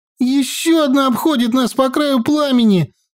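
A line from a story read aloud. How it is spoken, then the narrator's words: Squeaked. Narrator (Russian): снова пискнула Наташка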